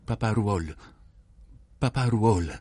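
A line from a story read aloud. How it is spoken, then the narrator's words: Stammered. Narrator (Italian): balbettò Charles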